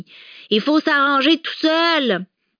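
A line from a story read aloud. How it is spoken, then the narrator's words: Little girl shouting. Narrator (French): cria la petite fille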